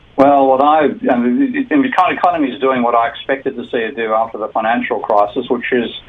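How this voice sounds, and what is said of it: Australian accent, fast speech. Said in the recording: “with your beautiful Australian accent, sometimes you talk so fast that it's hard”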